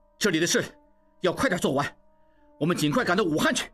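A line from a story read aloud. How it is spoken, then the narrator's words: Loud. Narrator (Chinese): 大声说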